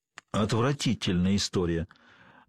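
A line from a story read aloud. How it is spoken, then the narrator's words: Gloomy statement. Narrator (Russian): мрачно констатировал доктор Грейнджер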